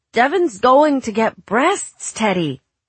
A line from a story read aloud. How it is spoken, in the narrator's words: Katie blurted